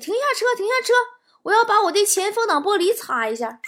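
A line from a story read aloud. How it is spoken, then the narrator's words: Sudden call. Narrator (Chinese): 我爸突然喊我说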